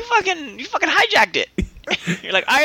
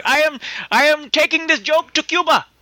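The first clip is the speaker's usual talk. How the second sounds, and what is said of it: Put-on Cuban accent, unconvincing. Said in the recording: “What accent was that? ... Kind of ... Pakistani. ... That was the Cuban accent. ... I mean, I've never been to Cuba, but I don't think that's how they talk.”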